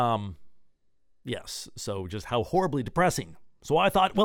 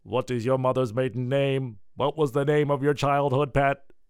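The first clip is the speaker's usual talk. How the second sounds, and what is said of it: Robotic voice. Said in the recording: “my robot accent.”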